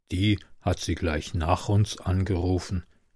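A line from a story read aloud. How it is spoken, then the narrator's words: Lowered voice explaining. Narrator (German): erklärte Michel mit gesenkter Stimme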